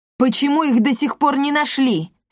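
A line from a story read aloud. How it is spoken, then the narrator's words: King barking across hall. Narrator (Russian): рявкнул король Рекс на весь банкетный зал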